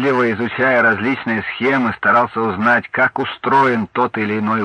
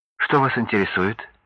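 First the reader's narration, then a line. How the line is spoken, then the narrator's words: Soft question. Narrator (Russian): мягко спросила она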